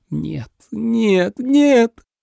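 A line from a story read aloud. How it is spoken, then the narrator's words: Broken moan. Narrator (Russian): Сломленно застонал Дерек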